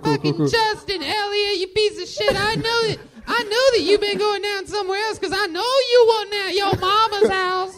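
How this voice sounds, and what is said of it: High-pitched angry girlfriend character voice. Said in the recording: “With the high voice. ... I'm your girl. I'll do your girl.”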